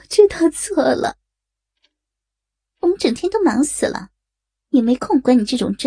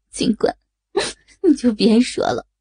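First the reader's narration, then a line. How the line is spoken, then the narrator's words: Mocking. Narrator (Chinese): 女警察嘲笑着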